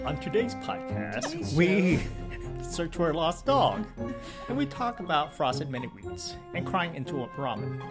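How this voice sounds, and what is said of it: Professional podcast host voice. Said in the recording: “the professional podcast voice”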